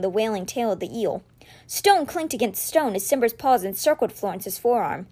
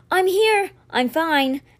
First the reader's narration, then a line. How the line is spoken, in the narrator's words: Alex called out a short distance from the ship